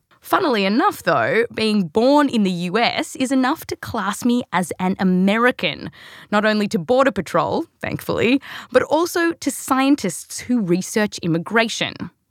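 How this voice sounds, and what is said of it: Australian accent. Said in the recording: “because of this accent ... No, the accent's actually real, but I was born here, raised in Australia.”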